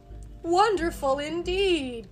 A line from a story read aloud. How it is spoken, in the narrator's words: cried Puss